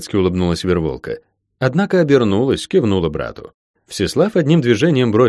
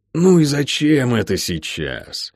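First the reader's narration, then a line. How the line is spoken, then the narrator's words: Sour inquiry. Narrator (Russian): кислым голосом осведомился мистер Питвик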